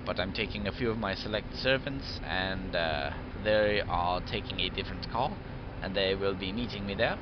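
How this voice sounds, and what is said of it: Put-on British accent. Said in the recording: “That doesn't sound British ... we're not actually British anyway ... my accent has changed a good 20-30 times so far”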